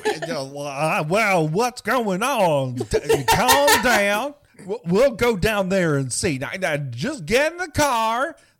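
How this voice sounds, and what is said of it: Put-on rural Southern US accent. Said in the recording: “sounds like he came from Hicksville, like straight out of the Dukes of Hazzard ... mystery southern accent ... some sort of backwater from Mississippi”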